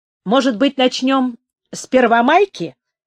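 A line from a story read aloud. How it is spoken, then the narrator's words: Cheerful. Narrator (Russian): сказал он, весело взглянув на Улю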